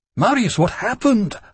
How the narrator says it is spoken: I said, shouting over the wind

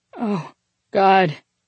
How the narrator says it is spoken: he panted

